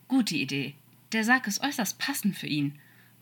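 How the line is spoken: Cool, cold. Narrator (German): meinte Aziraphale kühl

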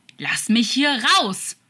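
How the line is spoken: Scream into darkness. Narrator (German): schrie Crawley in die Finsternis

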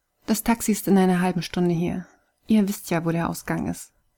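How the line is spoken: Cold. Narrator (German): sagte Kai kalt

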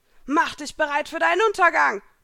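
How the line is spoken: Shout. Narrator (German): schrie Elsa

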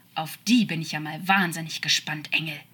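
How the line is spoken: Angry growl. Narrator (German): knurrte er wütend

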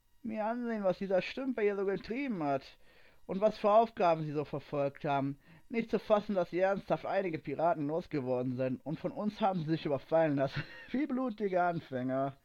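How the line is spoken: Nasty, mocking laugh. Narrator (German): lachte er böse auf

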